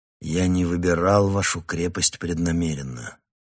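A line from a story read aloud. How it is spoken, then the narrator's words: Weary. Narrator (Russian): устало произнес я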